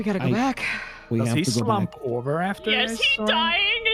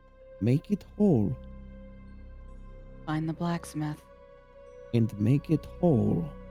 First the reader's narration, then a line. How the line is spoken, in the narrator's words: He just kind of muttered himself